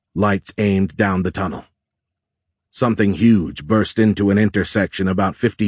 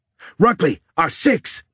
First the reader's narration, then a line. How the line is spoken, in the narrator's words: Timothy shouted